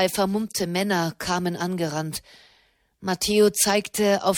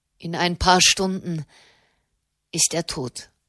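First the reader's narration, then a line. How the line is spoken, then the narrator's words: Sigh. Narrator (German): seufzte Jenny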